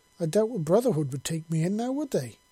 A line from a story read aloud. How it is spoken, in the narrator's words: Joel exclaimed